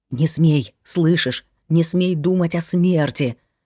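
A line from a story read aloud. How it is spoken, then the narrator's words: Whispering in ear. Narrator (Russian): шептал он ей на ухо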